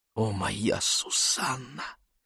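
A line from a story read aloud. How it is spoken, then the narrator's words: Whisper. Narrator (Russian): послышался мне шепот Мишеля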